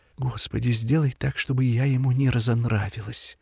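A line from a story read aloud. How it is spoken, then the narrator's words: Hurried whisper. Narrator (Russian): она торопливо зашептала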